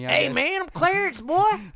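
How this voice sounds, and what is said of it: Goofy country old man voice. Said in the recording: “my old man voice. ... That's like our go-to voice. ... I'm not that country dude. But it's fun to do that sometimes.”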